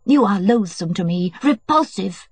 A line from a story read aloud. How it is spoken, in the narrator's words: she shrieked, getting more and more excited